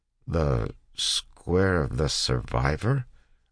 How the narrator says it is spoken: a soldier asked

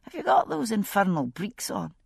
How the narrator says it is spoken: he murmured in my ear

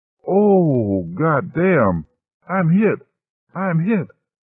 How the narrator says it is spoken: the pilot moaned

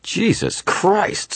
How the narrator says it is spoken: someone shouted

